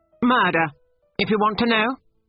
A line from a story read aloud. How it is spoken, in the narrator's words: he cried angrily